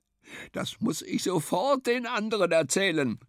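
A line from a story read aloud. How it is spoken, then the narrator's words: Calling out. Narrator (German): rief Gunda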